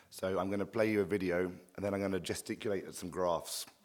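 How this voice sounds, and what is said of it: Hoarse, worn-out voice. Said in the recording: “As you can hear, my voice is a bit shot”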